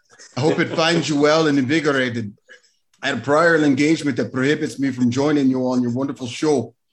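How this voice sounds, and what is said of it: Put-on Scottish accent, tapped R's. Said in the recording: “he does a wonderful Scottish accent ... Spot on ... So that's my brogue, my broguish way of speaking ... Got to tap my R's a little bit. Tap my R's.”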